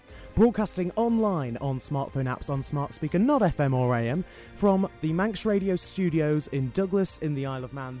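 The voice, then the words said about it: Polished radio announcer voice. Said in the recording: “has got such a great radio voice.”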